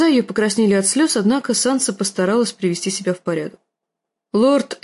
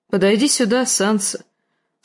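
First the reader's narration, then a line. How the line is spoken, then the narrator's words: Mildly stern. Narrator (Russian): сказал он не столь уж и строго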